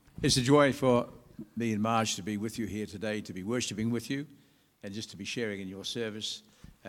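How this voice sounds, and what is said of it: New Zealand accent. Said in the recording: “I've got a funny accent ... I'm from New Zealand”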